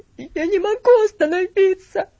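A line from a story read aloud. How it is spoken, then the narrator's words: Sobbing whisper. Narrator (Russian): шепотом произнес он и всхлипнул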